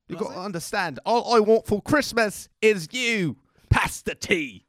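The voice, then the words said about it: Put-on British accent. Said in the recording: “What was that accent? ... It's British.”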